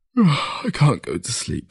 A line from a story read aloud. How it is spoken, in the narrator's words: he said through a yawn